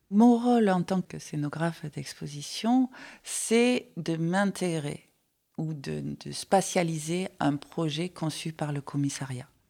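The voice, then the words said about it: Light Marseille French accent. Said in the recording (French): “vous allez certainement l'entendre, à Marseille ... c'est un accent léger de Marseille”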